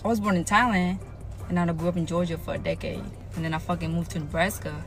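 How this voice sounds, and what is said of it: Speaks with a foreign accent. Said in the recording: “Yes, I have an accent because I ain't from here.”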